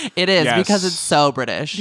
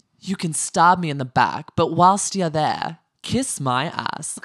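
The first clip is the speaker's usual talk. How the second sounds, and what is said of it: Poor imitation of British accent. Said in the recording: “That was LVP, in case you guys couldn't tell by my terrible British accent.”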